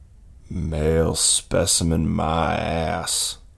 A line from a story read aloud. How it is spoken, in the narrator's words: Whiskey grumbled